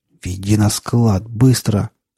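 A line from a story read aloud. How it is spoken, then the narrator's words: Hissed. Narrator (Russian): прошипел он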